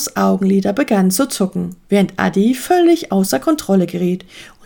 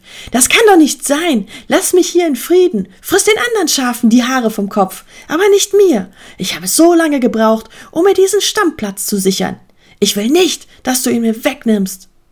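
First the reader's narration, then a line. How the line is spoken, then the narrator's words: Called out. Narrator (German): Er rief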